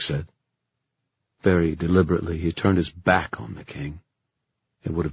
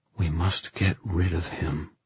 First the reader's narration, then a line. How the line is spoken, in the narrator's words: he said in a low voice